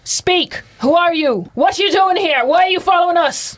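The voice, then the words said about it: Yelling. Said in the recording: “I'm yelling”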